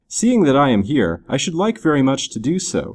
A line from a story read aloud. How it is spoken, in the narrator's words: replied Dick